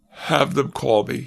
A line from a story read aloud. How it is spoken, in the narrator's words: he sighed